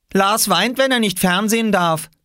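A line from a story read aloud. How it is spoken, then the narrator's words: Called out. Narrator (German): rief Oskar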